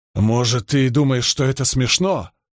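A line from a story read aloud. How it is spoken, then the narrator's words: Growling. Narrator (Russian): прорычал он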